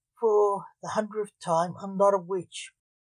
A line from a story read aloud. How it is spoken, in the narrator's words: moaned Black Alexander